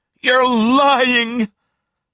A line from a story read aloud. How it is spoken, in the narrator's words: I heard Camille shout